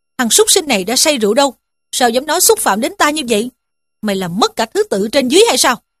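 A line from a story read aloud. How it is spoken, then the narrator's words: Angry scolding. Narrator (Vietnamese): Dương Luân nghe nói quát mắng rằng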